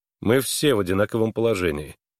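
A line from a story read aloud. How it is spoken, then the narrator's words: Dry remark. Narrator (Russian): сухо заметил Харлан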